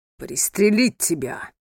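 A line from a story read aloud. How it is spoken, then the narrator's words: Booming. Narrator (Russian): прогремел голос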